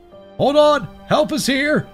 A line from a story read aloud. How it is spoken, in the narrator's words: a firm voice called out